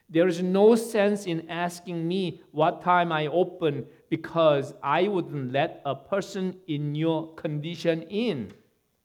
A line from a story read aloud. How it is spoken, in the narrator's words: the owner shouted